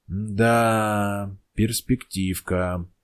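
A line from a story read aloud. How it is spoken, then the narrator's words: Drawling. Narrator (Russian): протянул Гросс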